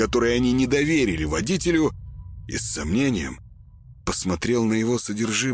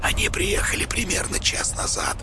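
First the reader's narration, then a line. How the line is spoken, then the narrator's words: Whisper. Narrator (Russian): сообщил Петр шепотом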